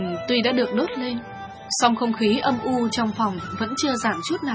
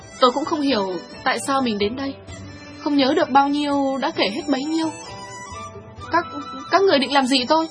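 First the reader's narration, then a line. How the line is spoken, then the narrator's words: Trembling nervous voice. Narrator (Vietnamese): Thiếu nữ đổ mồ hôi run rẩy nói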